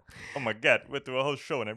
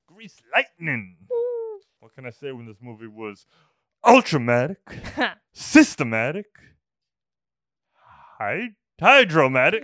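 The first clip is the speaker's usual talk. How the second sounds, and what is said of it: Imitates another person's voice. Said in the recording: “I barely did my Travolta impression.”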